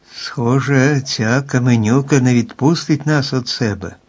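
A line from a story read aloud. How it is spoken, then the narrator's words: Saddened. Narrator (Ukrainian): посмутнілим голосом сказав моряк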